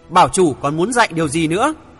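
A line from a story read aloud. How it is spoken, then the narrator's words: Shouting through gritted teeth. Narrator (Vietnamese): Thượng Chí nghiến răng kèn kẹt, hét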